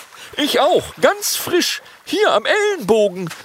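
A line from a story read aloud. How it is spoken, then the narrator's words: Dragon calling out. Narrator (German): ruft ein Langnasendrache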